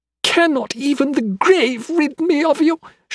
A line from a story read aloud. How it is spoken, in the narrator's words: she screamed hysterically, naked fury consuming her